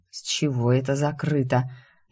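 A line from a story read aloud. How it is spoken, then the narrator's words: Drowsy mumble. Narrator (Russian): сонно, едва борясь с дремотой, бормочу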